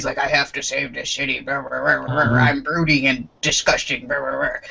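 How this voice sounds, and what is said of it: Brooding superhero character voice. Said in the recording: “my Oliver Queen impression.”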